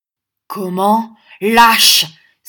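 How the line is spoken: Indignant cry. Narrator (French): s'écria son ami

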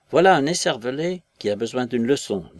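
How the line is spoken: Curt declaration. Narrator (French): déclara-t-il sèchement

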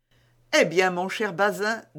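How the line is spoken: Officer laughing. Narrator (French): dit l'officier en riant

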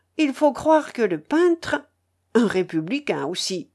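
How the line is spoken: Sighing. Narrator (French): ajouta Madame Roselli en soupirant

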